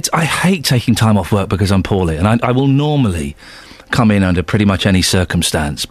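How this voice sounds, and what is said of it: Slightly croaky, husky voice. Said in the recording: “My voice is a little bit croaky. It doesn't have the full power and the full range ... the remaining days it was very husky”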